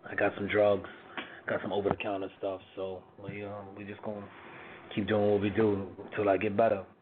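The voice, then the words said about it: Hoarse, congested voice. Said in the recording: “forgive my voice tonight. I'm a little hoarse ... a little cold, a little congestion”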